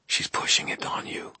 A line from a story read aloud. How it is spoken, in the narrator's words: I said quietly